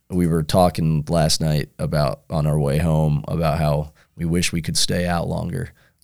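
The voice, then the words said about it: Hoarse, worn-out voice. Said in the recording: “I'm not doing an annoying vocal fry ... my voice is a little shot ... my voice is already sounding like this”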